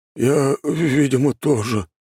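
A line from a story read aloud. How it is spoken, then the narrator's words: Dejected, sinking voice. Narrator (Russian): упавшим голосом произнес он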